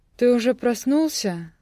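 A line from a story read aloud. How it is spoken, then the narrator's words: Sleepy question. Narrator (Russian): сонно спросила она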